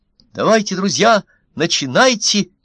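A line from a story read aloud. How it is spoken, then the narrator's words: Shouting. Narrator (Russian): крикнул один из них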